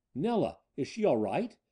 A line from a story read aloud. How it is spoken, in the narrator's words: Ned cried as he half roused from the surgery table